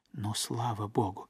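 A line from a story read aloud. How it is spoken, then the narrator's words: Whisper. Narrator (Russian): прошептал Том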